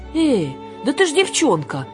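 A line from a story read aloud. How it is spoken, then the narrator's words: Exclaiming. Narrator (Russian): воскликнул Павел Иванович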